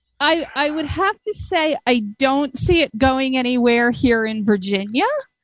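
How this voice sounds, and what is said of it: Unusual Virginia accent. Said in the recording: “that is a weird Virginia accent. ... it's a very weird Virginia accent.”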